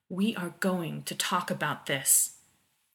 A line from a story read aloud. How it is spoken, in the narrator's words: John said in his most dangerous voice